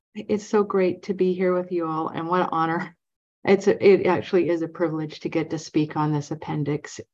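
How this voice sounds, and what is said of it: Nervous-sounding voice. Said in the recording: “You'll be able to tell from my voice that I'm a little nervous”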